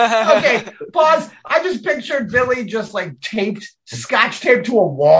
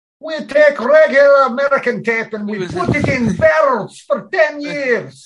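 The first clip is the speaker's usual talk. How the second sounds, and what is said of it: Put-on Scottish accent, sounds Russian. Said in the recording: “your Scottish accent sounded Russian... I have the Sean Connery of accents. It's not the right accent, but it fucking works”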